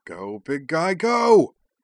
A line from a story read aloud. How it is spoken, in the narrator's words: cried